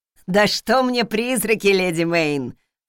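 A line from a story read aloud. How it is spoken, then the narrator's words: Snorting cook. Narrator (Russian): хмыкнула повариха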